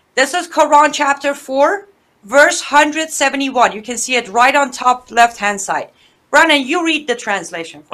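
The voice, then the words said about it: Speaks English with a foreign accent. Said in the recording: “my accent is going to get in the way ... your English is fine”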